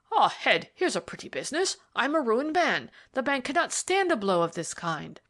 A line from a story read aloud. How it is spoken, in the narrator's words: Debrett exclaimed